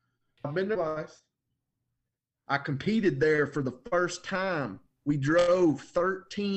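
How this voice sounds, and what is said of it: Usual voice. Nothing is said of it.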